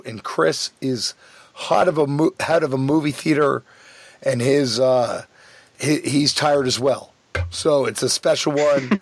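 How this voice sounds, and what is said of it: Hoarse, tired voice. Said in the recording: “My voice is hoarse, and I'm a little worn out.”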